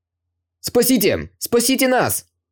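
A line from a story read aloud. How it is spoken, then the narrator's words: Loud shout. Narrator (Russian): громко закричал Чэньган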